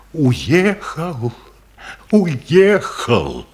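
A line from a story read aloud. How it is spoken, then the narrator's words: Scream. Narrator (Russian): Катюша закричала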